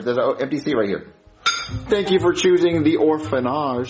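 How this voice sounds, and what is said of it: Speaks with a put-on accent. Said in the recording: “saying it with an accent doesn't make it better.”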